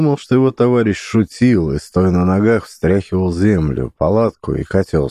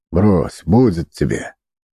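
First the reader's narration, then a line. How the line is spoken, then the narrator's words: Displeased tone. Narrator (Russian): Ноздрин, морщась от дыма, недовольным тоном сказал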